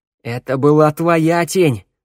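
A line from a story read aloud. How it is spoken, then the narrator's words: Yelling. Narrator (Russian): заорал Тео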